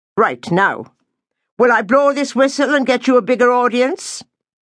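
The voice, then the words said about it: Irish accent character voice. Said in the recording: “my Irish speak”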